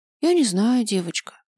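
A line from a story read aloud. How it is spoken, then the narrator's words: Sighing. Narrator (Russian): вздохнула Кария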